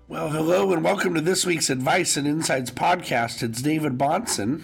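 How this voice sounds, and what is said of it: Scratchy voice from a head cold. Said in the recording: “my voice sounds a little scratchy ... I sound worse than I feel ... a little sinus infection or head cold”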